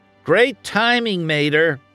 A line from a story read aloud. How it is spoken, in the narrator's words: McQueen shouted